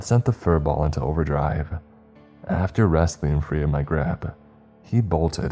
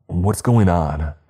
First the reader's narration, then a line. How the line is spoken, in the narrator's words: I shouted